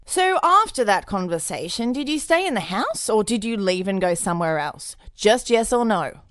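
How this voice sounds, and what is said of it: Fancy, haughty prosecutor voice. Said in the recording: “prosecutor. So kind of fancy, maybe like peering over the top of my glasses kind of voice? ... the chocolate prosecutor voice”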